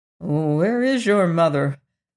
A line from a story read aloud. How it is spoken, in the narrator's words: asked anxiously